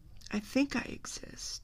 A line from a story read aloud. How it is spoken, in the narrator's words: he said wearily